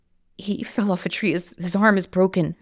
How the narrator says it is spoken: sobbed

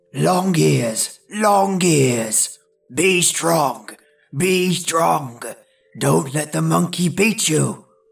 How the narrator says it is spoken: grunted the bear

